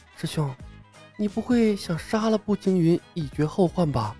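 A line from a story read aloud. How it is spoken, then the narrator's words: Low whispered reply. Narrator (Chinese): 冯公子低声回道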